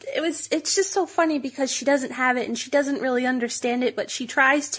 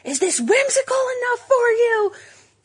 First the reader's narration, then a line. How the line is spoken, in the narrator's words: she was yelling across aisles